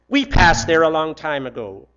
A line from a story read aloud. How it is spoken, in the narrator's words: the bus driver snapped